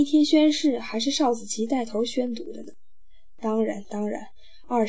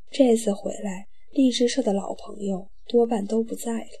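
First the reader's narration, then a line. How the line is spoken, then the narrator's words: Thoughtful sigh. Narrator (Chinese): 若有所思地叹了一口气，说道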